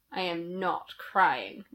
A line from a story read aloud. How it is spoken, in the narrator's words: Remus snarled